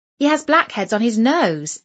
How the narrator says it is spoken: exclaimed Jane

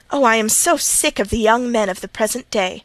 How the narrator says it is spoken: exclaimed she

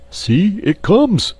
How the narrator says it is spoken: cried Curly

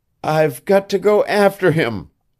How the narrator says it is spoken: she sobbed

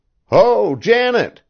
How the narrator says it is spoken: shouted Davy

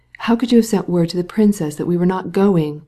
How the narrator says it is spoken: again demanded the painter, in his hoarse whisper, and still more irritated because he could not express himself as he wished

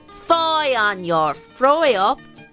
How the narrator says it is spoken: snarls the weaver

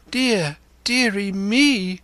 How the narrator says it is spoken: cried my mother

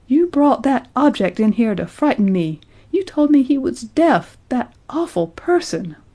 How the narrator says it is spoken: cried Betty

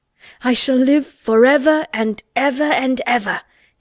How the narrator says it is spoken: he cried grandly

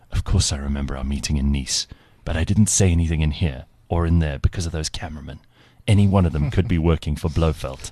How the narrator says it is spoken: in a hushed voice said

